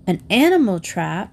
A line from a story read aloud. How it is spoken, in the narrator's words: exclaimed Cindy